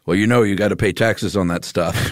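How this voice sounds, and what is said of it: Impression of a typical dad. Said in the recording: “great dad impression”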